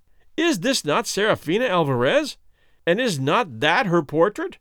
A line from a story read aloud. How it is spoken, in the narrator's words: cried Don Fernando